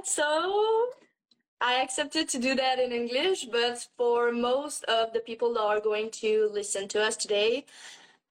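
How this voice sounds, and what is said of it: Slight French-Canadian accent. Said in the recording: “I'm French-Canadian. So you might see I have a little accent, but I think it's not too bad.”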